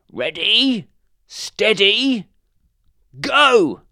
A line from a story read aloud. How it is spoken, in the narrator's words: shouted the badger